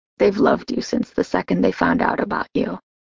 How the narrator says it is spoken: He murmured

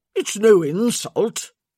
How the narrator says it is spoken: Hardwick grunted

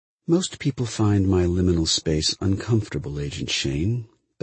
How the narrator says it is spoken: Bell said, a voice that I could not see and which came from everywhere, although quietly

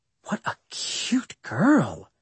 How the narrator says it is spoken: she whispered to me

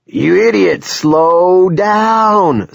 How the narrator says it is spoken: Sea Dogs cried at the pulp truck in a thin, panicky voice

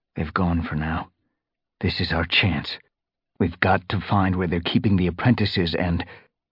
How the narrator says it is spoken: Crouching down again, Firestar murmured

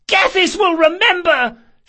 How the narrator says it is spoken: she screeched

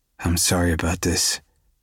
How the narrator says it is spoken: I mumble in Taylor's ear

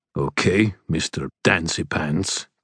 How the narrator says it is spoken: growled River Shoulders

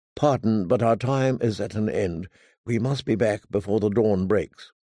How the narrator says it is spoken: Sir Robar said gently

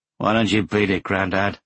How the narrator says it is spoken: one of them growled

